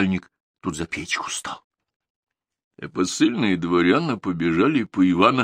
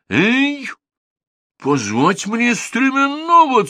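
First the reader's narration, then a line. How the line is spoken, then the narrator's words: Shouting. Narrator (Russian): Царь посыльным закричал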